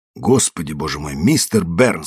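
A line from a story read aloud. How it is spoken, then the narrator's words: Angry. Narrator (Russian): сердито сказал я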